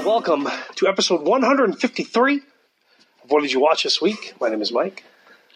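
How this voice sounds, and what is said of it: Voice strained by sore throat. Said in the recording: “I got a sore throat.”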